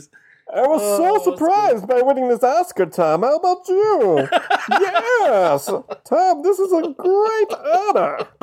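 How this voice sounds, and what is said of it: Muffled Bane villain voice. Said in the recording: “Both doing Bane voices ... covering your mouth ... You gotta have the muffled voice”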